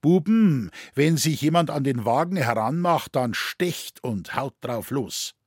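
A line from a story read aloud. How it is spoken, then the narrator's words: Very loud. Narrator (German): sagte sehr laut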